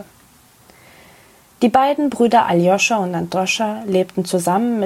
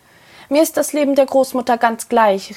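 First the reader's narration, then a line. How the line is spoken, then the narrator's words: Calling out. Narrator (German): rief Androscha ihm zu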